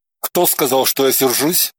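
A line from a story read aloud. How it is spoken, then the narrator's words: Grumbled. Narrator (Russian): буркнул он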